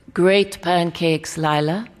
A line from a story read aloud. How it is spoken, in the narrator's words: he said